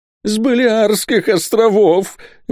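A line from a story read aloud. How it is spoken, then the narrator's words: Exclaiming. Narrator (Russian): воскликнул тот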